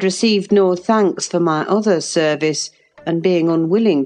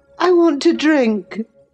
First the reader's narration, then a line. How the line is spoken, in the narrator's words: he exclaimed fretfully